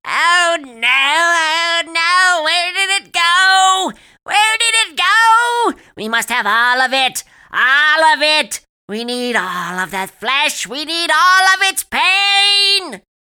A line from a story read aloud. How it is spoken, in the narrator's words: Purple was screeching